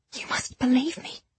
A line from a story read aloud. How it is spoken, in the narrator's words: I whispered, angry tears burning my eyes